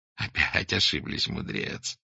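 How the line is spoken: Laughing loudly. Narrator (Russian): захохотал Сергей Тихонович

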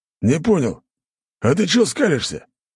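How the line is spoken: Barked. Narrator (Russian): гаркнул Скранч на 19-го

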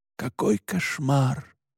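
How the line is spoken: Muttering. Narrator (Russian): бормотал отец Паскаль

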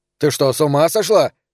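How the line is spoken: Shouted. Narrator (Russian): закричал Фрэнки

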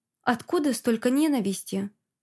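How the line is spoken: Plain question. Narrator (Russian): спросила

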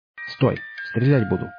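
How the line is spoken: Hoarse muffled voice from behind. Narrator (Russian): услышал я за своей спиной хриплый приглушенный голос

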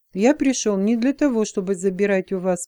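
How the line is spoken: Calm reply. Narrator (Russian): спокойно ответил он

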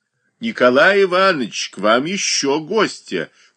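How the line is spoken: Woman shouting. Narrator (Russian): крикнула чухонка

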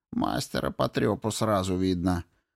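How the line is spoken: Grumble. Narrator (Russian): проворчал Кин

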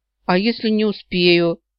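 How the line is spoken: Doomed moan. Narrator (Russian): обреченно простонала я, уже чувствуя подвох

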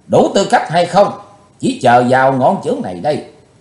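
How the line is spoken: Furious, hateful roar. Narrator (Vietnamese): Ngọn lửa căm hờn bốc cao ngàn trượng, Chí Tôn quát lớn

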